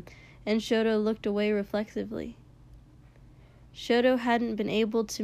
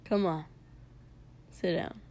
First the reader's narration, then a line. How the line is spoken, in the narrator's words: Kotsky mumbled